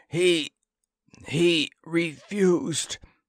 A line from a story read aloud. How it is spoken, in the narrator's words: he managed to wheeze out